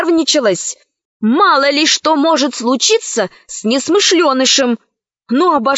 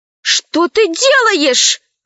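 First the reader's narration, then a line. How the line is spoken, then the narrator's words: Exclaimed. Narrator (Russian): воскликнула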